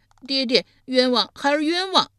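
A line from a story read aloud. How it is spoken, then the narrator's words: Loud desperate cry. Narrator (Chinese): 申生大声呼道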